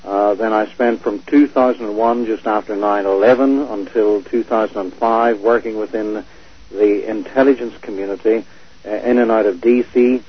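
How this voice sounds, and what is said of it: Belfast accent. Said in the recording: “Obviously, you can hear my Belfast accent”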